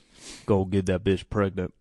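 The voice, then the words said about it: Impression of Mike Rashid. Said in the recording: “Here's my impersonation. ... That was Mike Rashid.”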